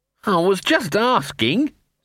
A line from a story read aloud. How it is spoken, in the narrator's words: said Sock in a desperate and distant voice